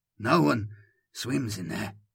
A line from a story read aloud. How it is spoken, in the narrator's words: muttered Tolman